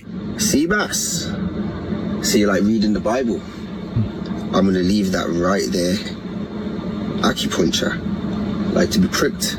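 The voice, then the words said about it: Playful put-on comedic accent. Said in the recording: “Warning, fun accent ahead.”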